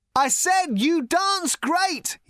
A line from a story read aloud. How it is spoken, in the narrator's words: he shouted